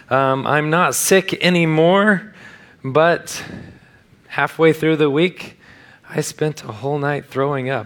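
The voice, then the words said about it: Damaged, strained weak voice. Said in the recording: “My voice is not here this morning ... it wrecked my vocal cords, and so waiting for that to come back”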